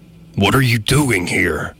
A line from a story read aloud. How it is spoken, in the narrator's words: he cried in a very gruff voice